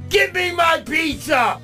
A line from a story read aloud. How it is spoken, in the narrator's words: he shouted